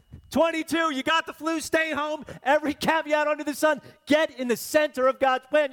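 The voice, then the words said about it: Shouting preacher. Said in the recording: “stop shouting at me. You hear me shout”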